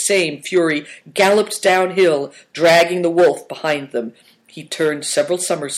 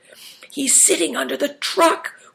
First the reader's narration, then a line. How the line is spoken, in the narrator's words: whispered Christian